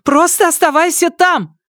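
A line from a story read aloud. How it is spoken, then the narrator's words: Shouted. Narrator (Russian): крикнула она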